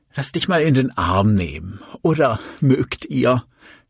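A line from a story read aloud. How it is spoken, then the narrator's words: Nervous laugh. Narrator (German): Sie lachte unsicher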